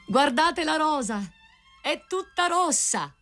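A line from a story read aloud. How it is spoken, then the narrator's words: Rose tree crying out. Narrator (Italian): il grido del rosaio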